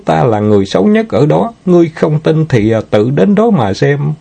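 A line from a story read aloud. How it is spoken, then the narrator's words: Giggling. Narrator (Vietnamese): Nàng ta bật cười khanh khách, nói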